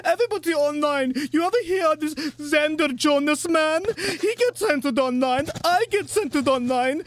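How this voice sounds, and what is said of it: Hysterical Italian-French accent. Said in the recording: “your Italian French hysterics accent”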